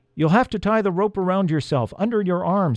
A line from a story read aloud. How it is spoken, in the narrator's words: shouted